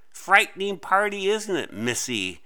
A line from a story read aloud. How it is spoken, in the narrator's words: the other witch cackled in a voice that sent ripples through Clara's skin